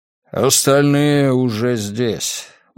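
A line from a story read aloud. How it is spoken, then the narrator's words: Weary man. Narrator (Russian): устало произнес мужчина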